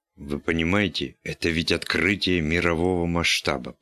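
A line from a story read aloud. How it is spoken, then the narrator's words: Muttering. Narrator (Russian): пробормотал он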